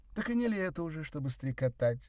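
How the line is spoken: Laughing. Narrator (Russian): рассмеялась Мария Федоровна

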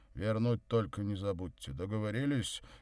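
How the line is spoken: Displeased bass voice. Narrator (Russian): недовольно пробасил Горький

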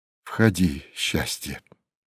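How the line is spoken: Quiet. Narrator (Russian): тихо сказал Ракелов

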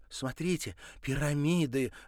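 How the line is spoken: Excited exclamation. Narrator (Russian): воскликнула Марина

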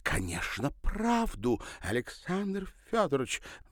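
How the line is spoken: Exclaiming. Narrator (Russian): воскликнула Ирина

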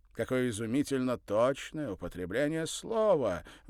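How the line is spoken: Delighted exclamation. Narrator (Russian): воскликнул с восторгом

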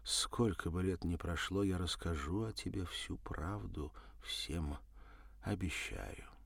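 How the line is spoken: Quietly said aloud. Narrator (Russian): тихо сказала вслух

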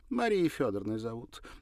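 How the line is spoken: Careless, then ringing laugh. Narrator (Russian): небрежно сказала она и звонко рассмеялась

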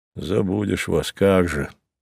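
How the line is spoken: Pleased mutter. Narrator (Russian): довольно пробормотал Савва

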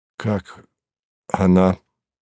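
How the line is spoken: Muffled question. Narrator (Russian): глухо спросил Савва

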